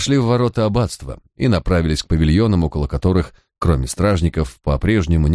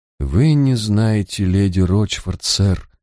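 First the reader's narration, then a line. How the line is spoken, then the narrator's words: Confused mumble. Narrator (Russian): растерянно пробормотала Тамазин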